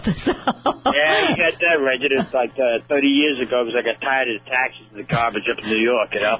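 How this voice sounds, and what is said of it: New York accent. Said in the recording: “he's got a New York accent because he's actually from New York ... still don't have that Southern twang yet? ... my father was from Brooklyn, and everybody grew up in Brooklyn. I'll never get rid of it.”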